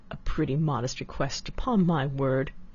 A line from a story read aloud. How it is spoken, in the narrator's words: indignantly exclaimed